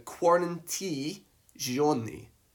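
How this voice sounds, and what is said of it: Put-on Italian accent. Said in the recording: “I'm pretty sure that's an authentic Italian accent.”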